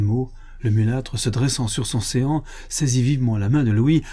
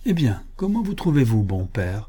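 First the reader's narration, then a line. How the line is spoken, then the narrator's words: Affectionate tone. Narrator (French): S'adressant alors au vieillard d'un ton affectueux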